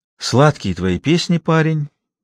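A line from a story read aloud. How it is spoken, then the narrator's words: Heavy sigh, speaking. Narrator (Russian): тяжело вздохнув, сказала Лукерья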